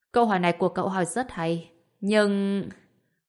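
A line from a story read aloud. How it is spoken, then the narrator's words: Helpless sigh. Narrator (Vietnamese): Lại Kha bất lực thở dài, nói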